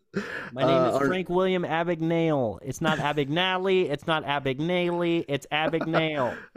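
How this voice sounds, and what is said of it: Imitates a weird movie accent. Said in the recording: “He's doing a weird accent in Catch Me If You Can too.”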